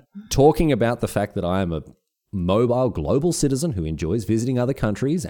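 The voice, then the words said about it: Thick Australian accent. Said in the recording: “your thick Australian accent”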